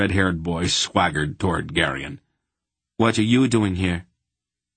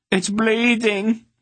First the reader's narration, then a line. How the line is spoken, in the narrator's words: he wailed accusingly